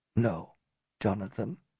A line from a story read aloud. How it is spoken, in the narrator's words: Mordecai said softly